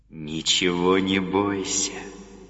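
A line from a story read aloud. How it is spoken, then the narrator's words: Tender. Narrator (Russian): сказал он нежно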